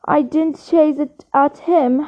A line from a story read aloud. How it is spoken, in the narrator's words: Harry said, his voice shaking with anger